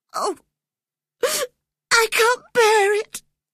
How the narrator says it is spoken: he sobbed

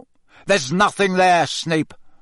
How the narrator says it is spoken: barked Moody

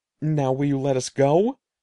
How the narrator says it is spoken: Eddie cried

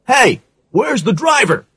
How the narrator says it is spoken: asked urgently

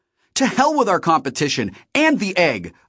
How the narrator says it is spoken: I shouted

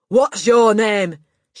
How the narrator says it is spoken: barked

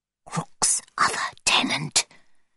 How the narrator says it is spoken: she whispered

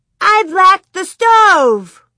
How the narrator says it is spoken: Grace jumped up and down and shouted

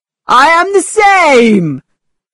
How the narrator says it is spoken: cried Mr

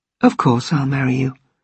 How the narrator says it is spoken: She … said quietly

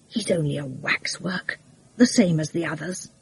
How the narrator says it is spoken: Hewson said quietly

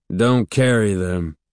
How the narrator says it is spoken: he grunted finally, sounding annoyed by the interruption

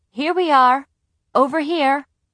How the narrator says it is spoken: my mother called out

